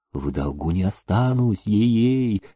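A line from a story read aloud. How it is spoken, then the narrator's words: Quiet promise. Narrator (Russian): тихо посулил Демидов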